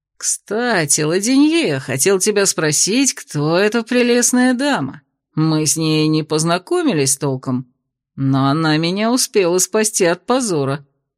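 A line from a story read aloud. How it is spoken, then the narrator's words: Purr. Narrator (Russian): промурлыкал Кирсан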